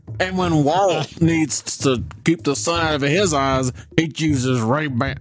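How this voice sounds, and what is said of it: Walt Disney impression, southern accent. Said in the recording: “I don't know why Walt has a southern ... your Walt impression ... It's not quite spot on.”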